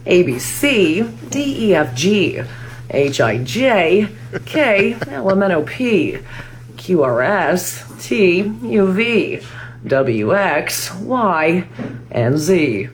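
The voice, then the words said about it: News anchor reading cadence. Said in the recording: “her impression of a news anchor doing the alphabet ... impression of somebody who works in the news doing the alphabet ... The cadence.”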